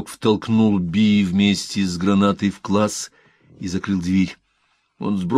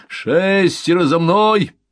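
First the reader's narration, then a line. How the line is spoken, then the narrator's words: Male shout. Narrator (Russian): прокричал мужской голос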